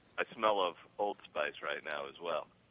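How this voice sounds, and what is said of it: Soothing 70s FM radio voice. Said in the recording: “FM radio voice ... It's very it's like 70s like easy listening kind of, you know, the soothing sound”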